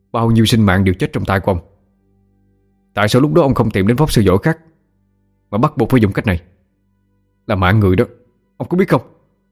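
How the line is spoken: Sharp shout. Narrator (Vietnamese): cậu bèn quát

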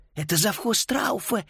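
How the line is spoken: Barely audible breath. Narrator (Russian): еле слышно выдохнула Фрида

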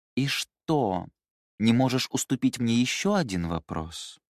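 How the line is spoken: Grumbling, deep voice. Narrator (Russian): Ворчливо сказала Мэйли глубоким голосом

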